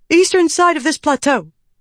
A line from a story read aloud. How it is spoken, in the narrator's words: the messenger said, panting